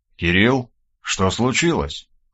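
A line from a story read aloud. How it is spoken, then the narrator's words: Quiet question. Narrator (Russian): тихо поинтересовался Хромов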